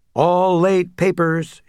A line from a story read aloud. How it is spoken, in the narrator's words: shouted as they hurried by